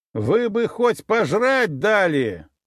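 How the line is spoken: Loud, through door gap. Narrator (Russian): громко заявил я через щель в двери

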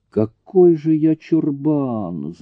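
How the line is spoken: Groan. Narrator (Russian): застонал Дэн

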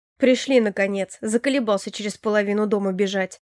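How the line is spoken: Snort. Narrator (Russian): Фыркнул парень

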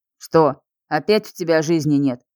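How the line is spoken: Scoffing snort. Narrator (Russian): фыркнула та

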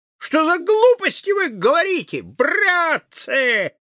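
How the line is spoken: Shouted. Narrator (Russian): крикнул

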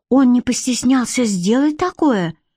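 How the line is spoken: Exclaimed. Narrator (Russian): воскликнула Модья

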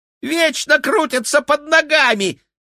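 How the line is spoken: Squeaking rat. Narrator (Russian): пискнул Феликс, топорща крысиные усы

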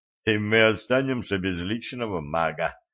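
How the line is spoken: Snort. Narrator (Russian): хмыкнул знахарь

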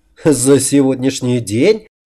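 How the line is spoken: Laughing. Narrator (Russian): рассмеялся

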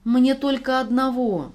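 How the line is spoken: Pleading. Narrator (Russian): взмолился Дима

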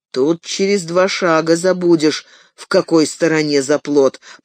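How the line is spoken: Grumbling. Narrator (Russian): проворчал Фродо

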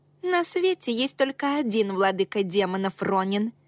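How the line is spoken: Snapping retort. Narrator (Russian): огрызнулась Рейка

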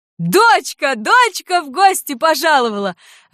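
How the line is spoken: Joyful mother. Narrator (Russian): радостно гласила мать

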